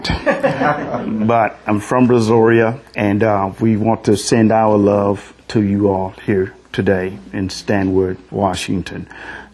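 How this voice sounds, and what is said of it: Southern US accent. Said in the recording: “excuse my southern accent”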